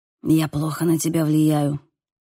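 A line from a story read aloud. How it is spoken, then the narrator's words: Whisper. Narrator (Russian): прошептал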